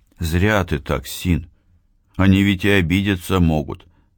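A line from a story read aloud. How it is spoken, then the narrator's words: Plain. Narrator (Russian): сказал он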